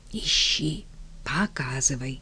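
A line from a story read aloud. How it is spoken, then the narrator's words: Whisper. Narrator (Russian): шепотом сказал Павел Алексеевич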